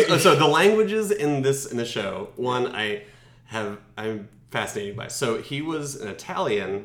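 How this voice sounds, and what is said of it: Usual voice. Nothing is said of it.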